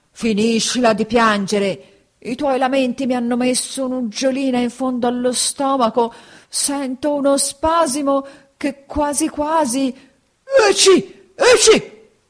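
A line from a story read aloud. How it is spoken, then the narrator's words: Gruff shout. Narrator (Italian): seguitando a fare il burbero, gridò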